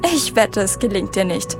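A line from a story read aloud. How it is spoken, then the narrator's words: Mocking, laughing. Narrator (German): spottete Madge und lachte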